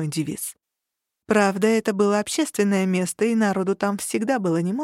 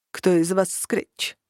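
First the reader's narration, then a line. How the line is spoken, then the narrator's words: Harsh-voiced question. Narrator (Russian): спросил он жестким голосом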